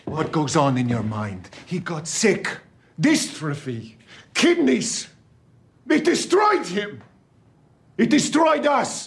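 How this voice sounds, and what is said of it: Italian accent in English. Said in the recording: “he's very good at the Italian, isn't he? The accent is great.”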